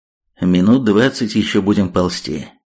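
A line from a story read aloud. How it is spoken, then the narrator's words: Outwardly calm. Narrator (Russian): вполне спокойно произнес Третьяк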